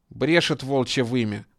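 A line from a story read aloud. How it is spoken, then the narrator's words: Angry. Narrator (Russian): зло мотнул головой тот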